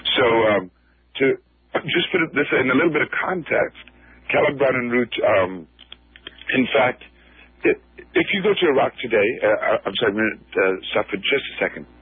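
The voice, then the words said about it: Strained, recovering voice. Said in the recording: “I lost my voice a couple of days ago, and so it's still a strain sometimes to talk.”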